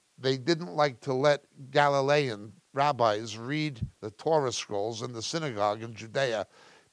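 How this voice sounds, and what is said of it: New York accent. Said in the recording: “I'm speaking with a New York accent”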